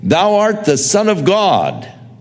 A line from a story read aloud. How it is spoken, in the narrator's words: unclean spirits, demons, cried, saying